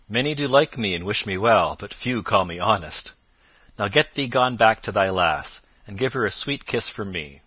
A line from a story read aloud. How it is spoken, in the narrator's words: quoth Robin, laughing loudly